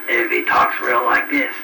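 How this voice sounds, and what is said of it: Hoarse, rough voice. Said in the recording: “hoarse”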